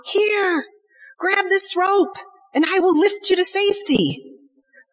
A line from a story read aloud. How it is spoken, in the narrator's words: the pilot shouted down